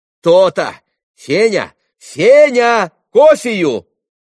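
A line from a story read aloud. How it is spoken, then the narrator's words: Shouted. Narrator (Russian): крикнула Грушенька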